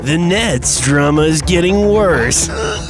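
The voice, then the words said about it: Movie phone announcer voice. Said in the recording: “Is that your movie phone voice?”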